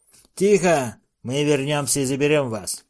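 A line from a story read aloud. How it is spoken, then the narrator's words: Grumbling. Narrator (Russian): проворчал Билл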